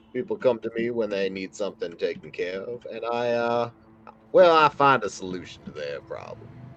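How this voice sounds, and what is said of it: Thick put-on character accent. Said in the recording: “as destitute as my accent is, thick.”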